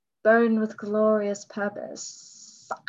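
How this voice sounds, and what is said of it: Poor imitation of a character's voice. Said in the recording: “that is a terrible impression.”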